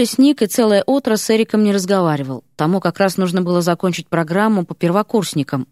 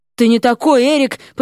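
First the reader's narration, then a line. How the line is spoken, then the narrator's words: Dramatic exclamation. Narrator (Russian): патетично воскликнул Ипполит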